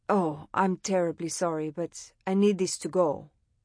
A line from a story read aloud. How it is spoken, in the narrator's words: the man said